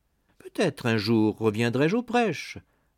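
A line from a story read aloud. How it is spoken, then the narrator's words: Added more cheerfully. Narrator (French): ajouta-t-il plus gaiement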